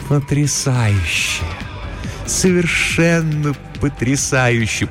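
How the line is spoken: Deep purr in ear. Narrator (Russian): промурлыкала она ему в ухо, и глубокий тембр ее голоса

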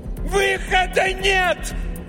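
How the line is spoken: Yelling in face. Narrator (Russian): заорала она прямо ему в лицо

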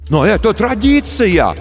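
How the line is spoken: Parents shouting after her. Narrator (Russian): кричали ей вслед родители

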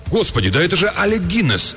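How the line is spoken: Sudden exclamation. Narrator (Russian): он вдруг воскликнул

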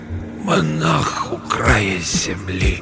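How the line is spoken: Hoarse breath, repeated. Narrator (Russian): Усыскин хрипло вдохнул воздух и повторил

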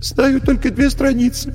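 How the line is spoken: Tearful answer. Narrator (Russian): бедный Алеша сквозь слезы отвечал

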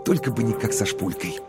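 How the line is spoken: Whisper. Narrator (Russian): Коровин прошептал

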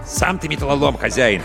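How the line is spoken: Snapped retort. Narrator (Russian): огрызнулся Аркаша

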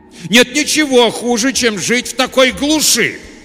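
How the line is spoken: Sudden forceful shout. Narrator (Russian): Вдруг с неожиданным напором в голосе прокричал мистер Уайт

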